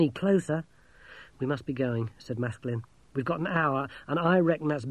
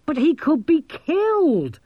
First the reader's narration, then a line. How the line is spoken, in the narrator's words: Maskelyne shrieked